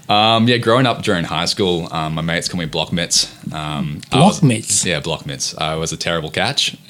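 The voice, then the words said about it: American accent with some Australian. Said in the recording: “have that distinct American accent ... some words I say are a little American, some words I say a bit Aussie, so I'm kind of caught in between ... I have no idea how you got this American accent, mate.”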